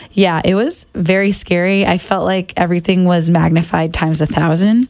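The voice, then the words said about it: Hoarse, nearly lost voice. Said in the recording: “I just like to address my voice ... it's like gone ... that's really where I lost my voice.”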